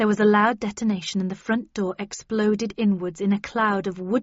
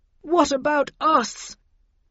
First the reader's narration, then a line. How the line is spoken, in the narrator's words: wailed Linton, coughing and on the verge of tears